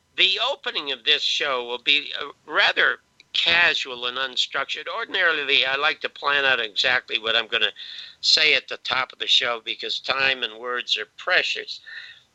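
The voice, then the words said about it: Congested, sick-sounding voice. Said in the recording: “As you can tell, I have a little bit of a cold.”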